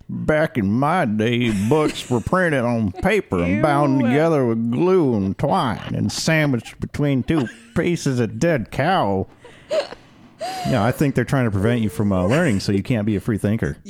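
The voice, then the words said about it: Folksy country bear character voice. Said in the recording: “You sounded like the country bears ... a really good impression ... that's what also you sounded like”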